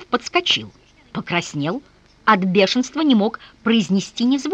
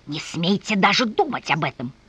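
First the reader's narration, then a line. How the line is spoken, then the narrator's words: Hissed. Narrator (Russian): Затем прошипел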